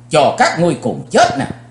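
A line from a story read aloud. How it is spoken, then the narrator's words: Angry loud shout. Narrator (Vietnamese): Chí Tôn tức giận, chàng hét lớn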